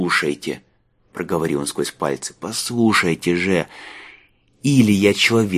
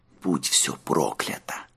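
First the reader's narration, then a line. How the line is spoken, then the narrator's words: Whisper. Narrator (Russian): прошептал Марк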